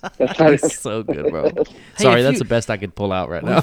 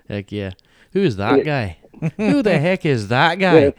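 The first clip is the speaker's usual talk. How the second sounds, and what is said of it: Put-on Irish accent. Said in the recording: “That Irish accent ... If you talk like that, maybe we can trick people into thinking he's on.”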